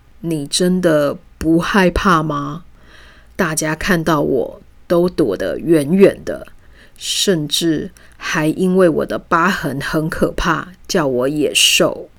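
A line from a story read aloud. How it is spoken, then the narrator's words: Timid. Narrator (Chinese): 他怯生生地说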